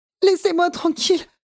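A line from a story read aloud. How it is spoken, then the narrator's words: Sobbing harder. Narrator (French): sanglote-t-elle de plus belle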